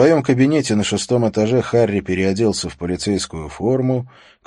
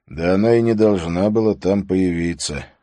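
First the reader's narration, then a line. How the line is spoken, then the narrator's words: Sigh. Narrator (Russian): вздохнул Харри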